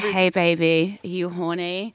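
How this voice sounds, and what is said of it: Put-on American accent, seductive voice. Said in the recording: “I don't know why I'm doing an American accent ... if you're gonna do a porn voice, it has to be American”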